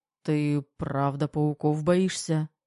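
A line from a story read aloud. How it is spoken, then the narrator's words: Strange hoarse questioning voice. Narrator (Russian): уточнил Терех, а голос слишком чужой и сиплый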